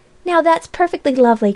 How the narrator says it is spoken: cried Polly

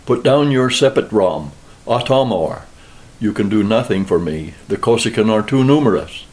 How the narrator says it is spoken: Alma, who understood the movement, cried to me

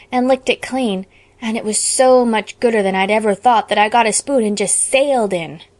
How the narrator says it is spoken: Anne groaned

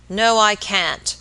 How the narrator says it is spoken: answered the baker, growing very red in the face, and speaking in an unnecessarily loud voice

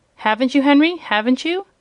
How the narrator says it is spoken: she asked anxiously

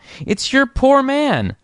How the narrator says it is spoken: piped out

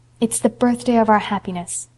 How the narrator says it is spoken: said Anne softly

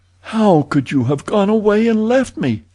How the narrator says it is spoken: she cried reproachfully

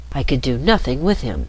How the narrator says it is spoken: she said at once, in her soft voice, speaking quite prettily and gently, as if what she said was the most natural thing in the world

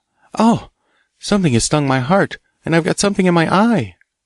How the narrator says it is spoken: Kay exclaimed

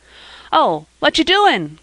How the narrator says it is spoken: cried Joel

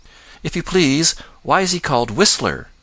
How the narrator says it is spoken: asked Johnny Chuck eagerly

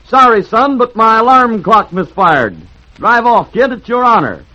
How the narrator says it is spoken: grinning cheerfully, said to the Prince of Wales

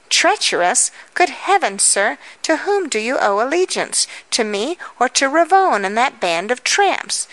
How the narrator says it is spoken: cried with eyes afire

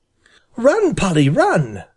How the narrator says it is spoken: he cried

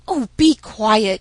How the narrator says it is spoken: snapped Polynesia crossly

